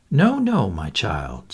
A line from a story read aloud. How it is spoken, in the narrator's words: said Poirot kindly